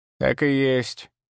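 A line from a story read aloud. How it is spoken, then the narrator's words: Creaky old woman. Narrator (Russian): проскрипела старуха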